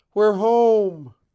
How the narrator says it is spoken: her voice crying out in glad triumph

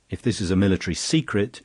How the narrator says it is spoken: shouted Brun

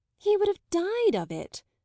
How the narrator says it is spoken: Isabel exclaimed

